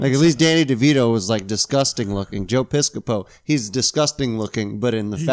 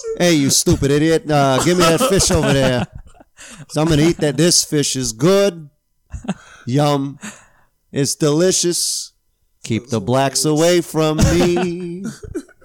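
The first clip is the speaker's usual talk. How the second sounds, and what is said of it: Imitates another person's voice, weird accent. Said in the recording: “just do a Frank Sinatra impression ... he has like a weird accent”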